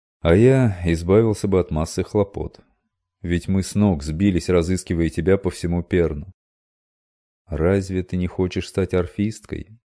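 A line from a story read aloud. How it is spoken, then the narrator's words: Sad, disappointed. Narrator (Russian): Робинтон произнес это так печально и разочарованно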